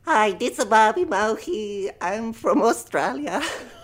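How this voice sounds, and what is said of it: Baby voice with Italian-like accent. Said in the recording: “I'm detecting kind of an Italian accent. ... He's kind of like a very cultured 3-year-old. ... I started talking like a baby.”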